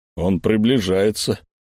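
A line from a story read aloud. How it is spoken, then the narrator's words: Nervous deep voice. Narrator (Russian): нервно пробасил невидимка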